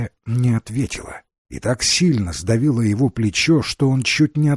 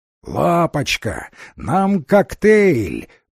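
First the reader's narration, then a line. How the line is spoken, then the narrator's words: Roared, female. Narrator (Russian): проревела она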